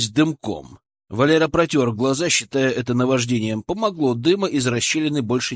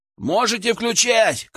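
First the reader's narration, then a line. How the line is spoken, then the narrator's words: Shouted. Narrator (Russian): крикнул он в дом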